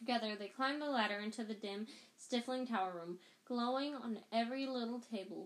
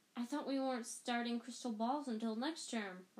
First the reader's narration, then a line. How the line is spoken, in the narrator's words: Ron muttered